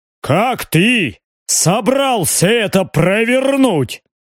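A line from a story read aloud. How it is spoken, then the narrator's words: Deep bass voice. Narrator (Russian): пробасил барон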